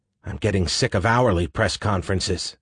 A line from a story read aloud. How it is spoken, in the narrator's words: Annie whispered back